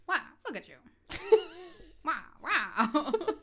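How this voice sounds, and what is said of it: Old-fashioned put-on accent. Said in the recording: “That's how they talked back then. ... that accent. I love it.”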